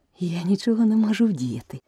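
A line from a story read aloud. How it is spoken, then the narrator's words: Gentle explanation. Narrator (Ukrainian): лагідно пояснила Аліса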